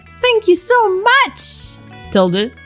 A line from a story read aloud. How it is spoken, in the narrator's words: exclaimed Tracer